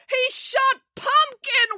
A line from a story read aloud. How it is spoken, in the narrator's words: wailed April